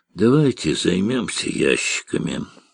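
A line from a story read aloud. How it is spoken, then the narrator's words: Tired. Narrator (Russian): устало сказал Карташ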